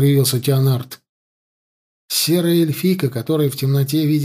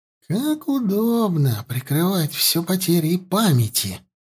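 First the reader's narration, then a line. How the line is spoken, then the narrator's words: Hissing. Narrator (Russian): прошипела она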